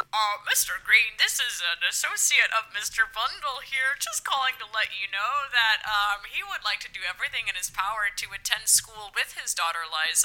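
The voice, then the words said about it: Put-on disguised voice. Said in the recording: “Clearly, you putting on a voice.”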